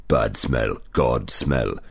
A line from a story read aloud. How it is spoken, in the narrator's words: it growled